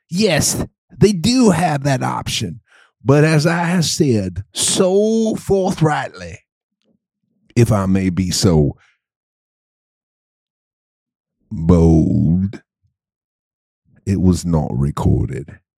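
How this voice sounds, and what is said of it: Mixed put-on continental accent. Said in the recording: “where is that accent originating from? Because it is certainly all over the map. ... Both continental”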